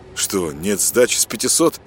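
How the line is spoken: Irritated. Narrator (Russian): раздраженно отреагировал Дмитрий

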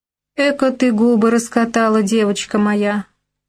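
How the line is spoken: Loud laughing. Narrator (Russian): расхохоталась мадам

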